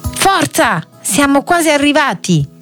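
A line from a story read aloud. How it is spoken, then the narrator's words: Shout to brothers. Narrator (Italian): Jimmy gridò ai fratelli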